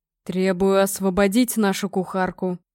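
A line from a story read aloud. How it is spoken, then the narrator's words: Growled. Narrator (Russian): прорычал Гром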